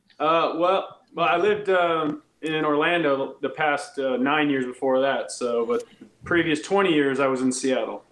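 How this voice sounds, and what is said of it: Slight Georgia Southern drawl. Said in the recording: “I hear an accent... I can hear that like Georgia accent... I'm noticing the draw is starting to come back a little bit”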